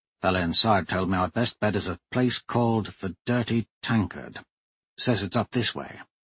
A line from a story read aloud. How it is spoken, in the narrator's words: in a quiet voice said